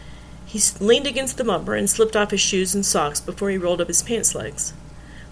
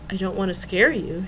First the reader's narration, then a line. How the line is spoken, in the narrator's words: she said softly